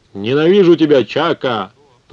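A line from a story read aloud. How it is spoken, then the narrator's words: Roar. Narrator (Russian): проревел он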